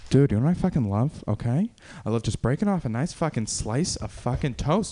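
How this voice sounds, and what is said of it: Mark Wahlberg impression. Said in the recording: “can I get a word for uh, uh, Mark Wahlberg?”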